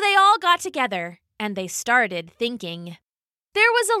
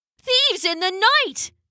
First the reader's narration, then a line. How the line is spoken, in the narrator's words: they cried